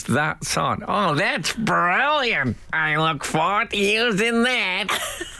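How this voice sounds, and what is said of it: Imitates another person's voice. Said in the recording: “my Paris Hilton impression”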